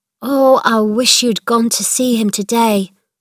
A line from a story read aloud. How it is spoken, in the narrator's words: Martha said